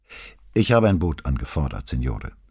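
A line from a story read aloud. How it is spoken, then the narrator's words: Very calm. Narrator (German): sagte Vianello ganz ruhig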